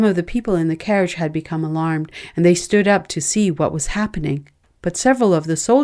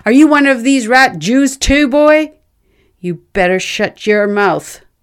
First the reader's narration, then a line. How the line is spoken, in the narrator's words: he shouted back at me